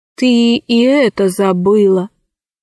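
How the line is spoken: Sad remark. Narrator (Russian): печально заметил Арсеки

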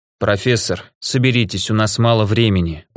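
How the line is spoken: Tired voice. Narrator (Russian): устало сказал граф

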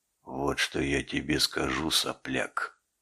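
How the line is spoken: Quiet. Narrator (Russian): тихо произнес Дюсандер

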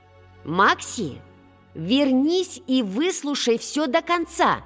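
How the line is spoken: Aunt shouting. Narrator (Russian): крикнула тетушка Грифина

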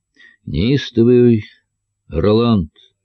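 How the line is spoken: Plain, small child. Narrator (Russian): сказал малыш

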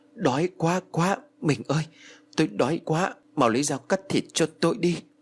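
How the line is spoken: Panting, soft voice. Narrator (Vietnamese): Ông Phú thở hổn hển rồi khẽ nói

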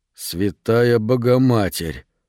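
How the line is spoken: Plain. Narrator (Russian): сказал Мэтт

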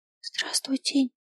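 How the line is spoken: Whispered. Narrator (Russian): прошептал он

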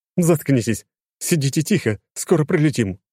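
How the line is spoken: Snapping. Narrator (Russian): огрызнулась она

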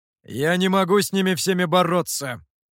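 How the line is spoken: Irritated. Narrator (Russian): раздраженно сказал Гуэй

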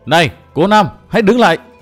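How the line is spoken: Loud call. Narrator (Vietnamese): Linh Châu lớn tiếng gọi

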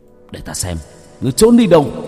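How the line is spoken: Menacing growl. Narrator (Vietnamese): Hải Xoa gằn giọng

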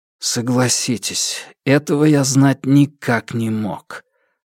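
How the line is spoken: Forced out reluctantly. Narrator (Russian): выдавил Александр

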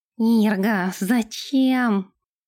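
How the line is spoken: Moan. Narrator (Russian): простонал Нэш

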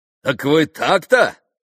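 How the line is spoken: Booming voice. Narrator (Russian): зычным голосом проговорил

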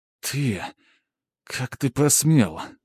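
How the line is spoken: Through gritted teeth. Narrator (Russian): сквозь зубы процедила она

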